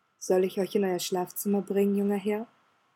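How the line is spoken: Quiet words into ear. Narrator (German): Sebastian lehnte sich an das Ohr des Grafen und sagte leise

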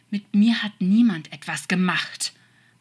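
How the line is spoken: Angry hiss. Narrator (German): fauchte der Engel

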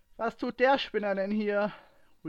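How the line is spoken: Louder-than-intended call. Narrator (German): rief Ray lauter, als es geplant war

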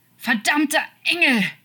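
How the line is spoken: Shouting, holding back sobs. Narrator (German): schrie und unterdrückte das Schluchzen

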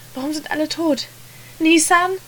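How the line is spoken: Calling out. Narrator (German): rief er weiter

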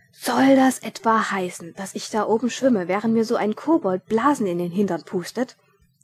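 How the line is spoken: Indignant thundering. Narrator (German): donnerte Ridkali empört

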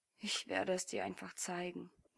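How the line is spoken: Pouting mutter. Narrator (German): murmelte mit vorgeschobener Unterlippe

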